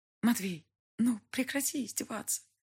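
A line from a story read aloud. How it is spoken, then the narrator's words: Whisper. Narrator (Russian): прошептала я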